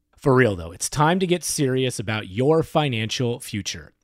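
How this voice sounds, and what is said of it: Mock-serious voice. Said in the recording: “In my serious voice.”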